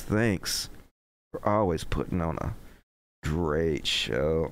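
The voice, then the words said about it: Exaggerated sexy voice. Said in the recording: “I'm gonna read it in my sexy voice.”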